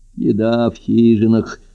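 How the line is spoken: Sleepy. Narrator (Russian): сонно сказал Быкоборов

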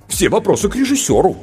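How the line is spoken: Said in offended tone. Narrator (Russian): обиженно сказал сценарист

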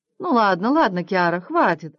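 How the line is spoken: Laughing woman. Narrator (Russian): засмеялась она

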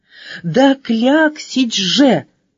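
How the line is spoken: Exclaiming. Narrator (Russian): воскликнула буква А

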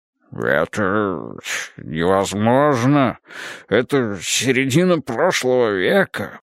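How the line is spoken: Babbling. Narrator (Russian): Полос опять пролепетал

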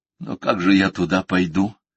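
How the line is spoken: Weary reply. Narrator (Russian): устало отозвался Дирк

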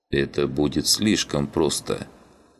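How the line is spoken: Gloomy. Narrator (Russian): мрачно проговорил он

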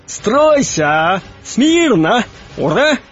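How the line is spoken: Shouting. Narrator (Russian): кричал он

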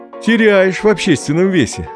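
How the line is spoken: Laughing father. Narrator (Russian): засмеялся папа

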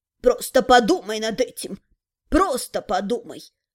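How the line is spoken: Quiet spirit voice. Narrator (Russian): Негромко произнес дух места

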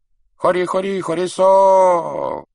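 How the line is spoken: Shamans crowing like rooster. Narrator (Russian): два шамана, подражая пению петуха, кричали

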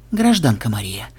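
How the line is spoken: Hoarse rasp. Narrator (Russian): прохрипел Ксенобайт

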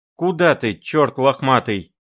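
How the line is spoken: Desperate shout. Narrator (Russian): кричала отчаянно Зина

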